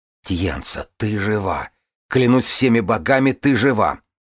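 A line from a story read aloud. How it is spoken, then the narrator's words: Hiss. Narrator (Russian): Она зашипела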